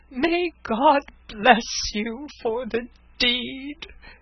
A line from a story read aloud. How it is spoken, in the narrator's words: he cried